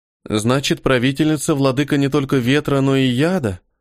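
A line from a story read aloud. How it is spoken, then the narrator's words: Sighing. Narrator (Russian): Она вздохнула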